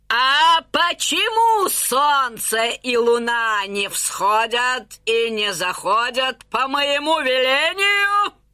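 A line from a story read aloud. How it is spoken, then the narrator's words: Wailing. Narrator (Russian): завопила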